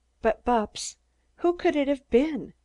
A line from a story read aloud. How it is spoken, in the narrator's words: she asked anxiously